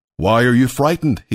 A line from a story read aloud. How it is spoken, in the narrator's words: he asked